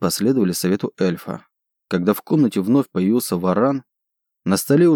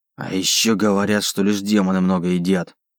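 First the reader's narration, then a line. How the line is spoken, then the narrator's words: Grumbling demon. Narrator (Russian): пробурчал демон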